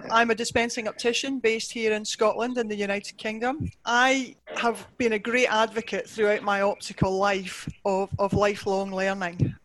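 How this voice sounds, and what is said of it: Scottish accent. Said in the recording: “I've got a good Scottish name and a good Scottish accent. I hope you can uh, understand me.”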